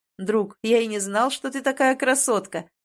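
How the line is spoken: Laughing. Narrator (Russian): смеялся Шенрак с принцем на пару

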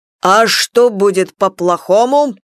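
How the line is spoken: Barked loudly. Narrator (Russian): гаркнул Иван Егорович

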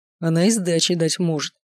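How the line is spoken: Snort. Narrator (Russian): хмыкнул Маркус

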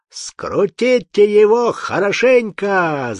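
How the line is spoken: Shout. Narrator (Russian): закричал в окно омляш

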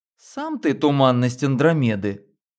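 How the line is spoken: Laughing. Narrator (Russian): рассмеялась Лена

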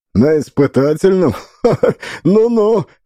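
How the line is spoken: Chuckle. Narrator (Russian): хохотнул Ковалев

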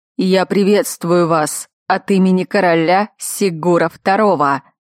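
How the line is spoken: Menacing. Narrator (Russian): грозно начал он

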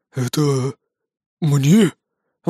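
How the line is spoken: Breathless exhale. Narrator (Russian): выдохнул он

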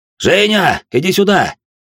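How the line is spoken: Shouted. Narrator (Russian): крикнул

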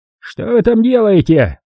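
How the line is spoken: Shouting. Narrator (Russian): крикнул он

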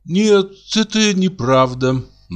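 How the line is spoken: Naive sigh. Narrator (Russian): наивно вздохнула Оленька

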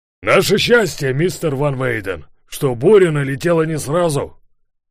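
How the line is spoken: Shout. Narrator (Russian): крикнул Ларсен

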